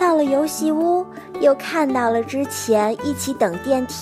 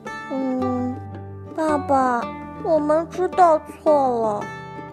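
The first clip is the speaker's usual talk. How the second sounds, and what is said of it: Quiet, soft-spoken child's line. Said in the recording (Chinese): “小福小声地说”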